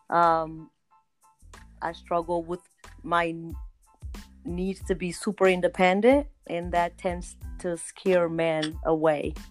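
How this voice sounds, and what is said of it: Cape Verdean accent. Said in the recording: “I hear an accent. Where are you originally from? ... I am originally from Cape Verde Islands on the west coast of Africa”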